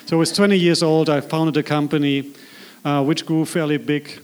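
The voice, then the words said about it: German accent in English. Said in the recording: “So I'm from Germany. You'll be notice that by my accent.”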